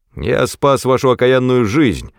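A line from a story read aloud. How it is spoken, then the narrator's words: Barked reply. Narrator (Russian): рявкнул в ответ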